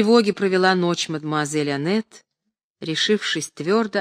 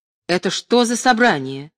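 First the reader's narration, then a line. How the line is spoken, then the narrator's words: Surprised exclamation. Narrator (Russian): Марк Семенович с удивлением воскликнул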